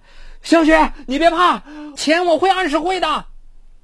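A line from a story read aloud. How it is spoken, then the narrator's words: Anxious, helpless shout. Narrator (Chinese): 江宇又着急又无奈，只能在电话这一头大声喊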